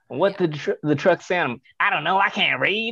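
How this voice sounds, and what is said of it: Imitates another person's voice. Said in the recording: “that was pretty good. That was pretty good. That impression.”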